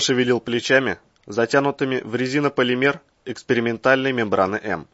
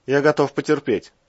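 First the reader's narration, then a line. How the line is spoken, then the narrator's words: Wry grunt. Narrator (Russian): хмыкнул Иван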